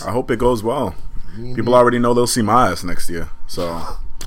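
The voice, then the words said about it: Sad-sounding voice. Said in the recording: “You sound so sad saying it.”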